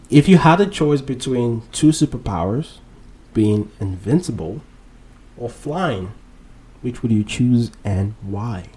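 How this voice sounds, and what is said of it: Speaks with an accent. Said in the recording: “You can't tell I have an accent. ... I'm blaming it on my accent”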